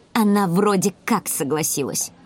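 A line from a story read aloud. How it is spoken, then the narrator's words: Angry reply. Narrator (Russian): зло ответила Эрика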